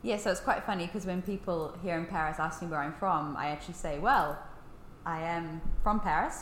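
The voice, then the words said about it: New Zealand accent. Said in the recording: “you have a New Zealand accent”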